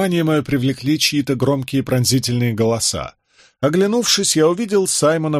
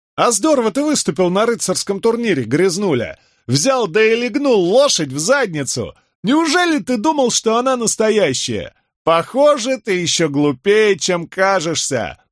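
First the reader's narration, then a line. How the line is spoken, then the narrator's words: Several voices shouting over each other. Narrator (Russian): наперебой орали они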